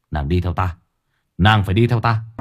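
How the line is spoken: Rough, coarse voice. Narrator (Vietnamese): nói bằng giọng thô lỗ

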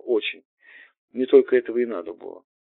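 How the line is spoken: Young man exhaling. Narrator (Russian): Молодой человек выдохнул

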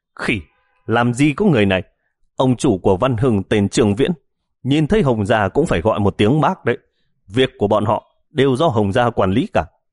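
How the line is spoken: Thin man yelling. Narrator (Vietnamese): Gã gầy hét lên

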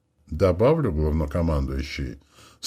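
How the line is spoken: Calm continuation. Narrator (Russian): спокойно продолжила амазонка

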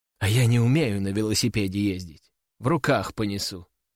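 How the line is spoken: Sighing. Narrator (Russian): вздохнула Кобра

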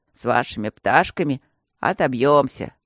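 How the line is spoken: Patient's deep bass voice. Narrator (Russian): пробасил кто-то из больных

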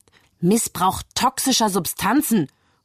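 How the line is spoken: Interrupting shout. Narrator (German): ruft Staatsanwalt Bell dazwischen

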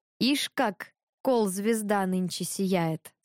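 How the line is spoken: Plain. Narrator (Russian): сказал Иван

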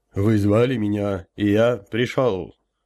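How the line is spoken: Low booming drone. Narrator (Russian): прогудел я

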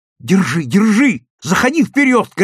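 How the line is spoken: Shouting. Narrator (Russian): кричал Левка

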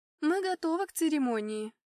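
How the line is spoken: Loud announcement. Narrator (Russian): громко сообщила она

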